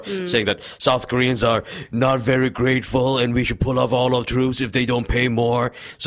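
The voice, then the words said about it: Imitates another person's voice. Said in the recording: “That's a good impression.”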